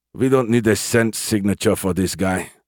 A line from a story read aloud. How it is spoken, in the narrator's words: Lieutenant Kruger grunted